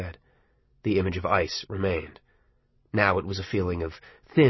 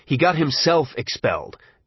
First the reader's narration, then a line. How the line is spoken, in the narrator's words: Dennis said hotly